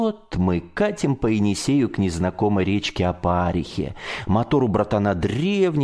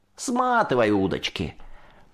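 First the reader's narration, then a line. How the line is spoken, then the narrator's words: Chuckling, brisk command. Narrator (Russian): Хохотнул Аким и бодро скомандовал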